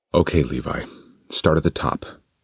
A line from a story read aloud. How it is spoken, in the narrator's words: Zane asked, trying to keep his voice calm and steady